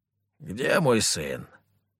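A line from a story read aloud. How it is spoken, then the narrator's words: Slightly hoarse question. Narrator (Russian): спросил он, чуть хрипя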